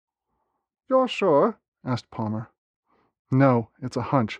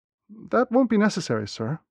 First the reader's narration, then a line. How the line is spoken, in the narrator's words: I said, looking nervously to Professor Palmer